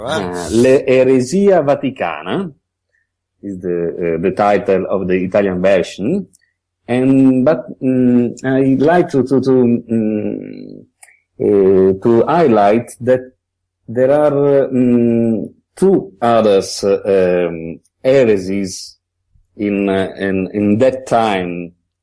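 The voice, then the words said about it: Italian-accented English. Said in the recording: “we love your accent”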